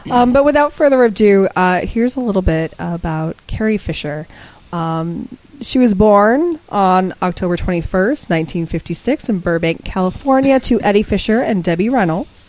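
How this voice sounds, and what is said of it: Slightly hoarse, fading voice. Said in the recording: “I'm losing my voice a little bit here”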